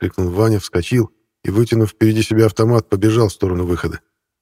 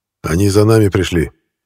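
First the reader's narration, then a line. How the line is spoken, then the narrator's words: Quiet hoarse rasp. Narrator (Russian): тихо прохрипел Кронах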